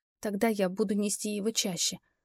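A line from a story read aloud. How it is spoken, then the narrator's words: Whisper. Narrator (Russian): прошептала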